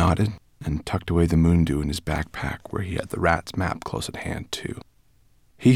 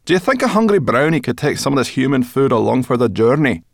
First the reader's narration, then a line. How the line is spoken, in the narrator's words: Zubaydah Khalib laughed